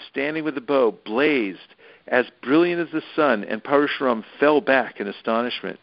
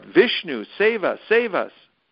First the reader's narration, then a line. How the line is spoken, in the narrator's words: They cried out